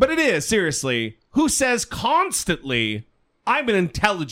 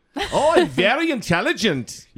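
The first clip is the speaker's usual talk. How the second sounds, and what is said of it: Badly done put-on accent. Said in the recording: “That's a terrible accent.”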